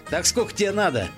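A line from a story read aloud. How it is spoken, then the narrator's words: Question after laughing. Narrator (Russian): просмеявшись, спросил Джон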